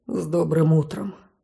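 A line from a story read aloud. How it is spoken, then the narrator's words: Soft group greeting. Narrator (Russian): Тихонько поприветствовали меня тени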